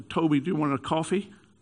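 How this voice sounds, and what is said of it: Put-on American accent. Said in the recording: “She had American... That's my American accent.”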